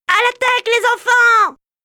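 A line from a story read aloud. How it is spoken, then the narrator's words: Shouted with unusual boldness. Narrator (French): cria-t-il comme il n'aurait jamais eu le courage de le faire dans des conditions normales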